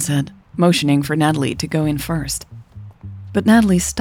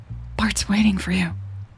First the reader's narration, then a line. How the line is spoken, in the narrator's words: Natalie whispered